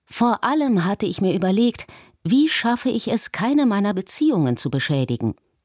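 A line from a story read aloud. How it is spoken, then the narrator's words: Plain. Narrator (German): sagte er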